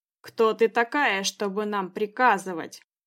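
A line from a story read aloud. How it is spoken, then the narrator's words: Growled. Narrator (Russian): прорычал он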